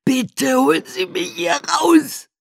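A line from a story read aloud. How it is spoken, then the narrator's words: Scream. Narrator (German): schrie Walter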